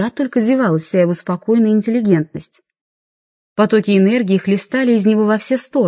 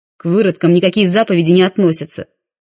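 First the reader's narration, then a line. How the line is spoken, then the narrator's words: Barked. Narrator (Russian): рявкнул водитель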